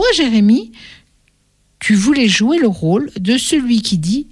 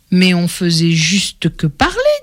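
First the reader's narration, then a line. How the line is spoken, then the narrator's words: Plain. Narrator (French): dit Laurie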